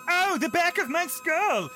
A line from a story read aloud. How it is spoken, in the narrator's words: shout